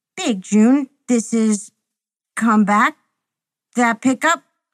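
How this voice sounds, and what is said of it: Distant, broken, crackling radio voice. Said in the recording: “A mounted radio crackles with a distant, broken voice.”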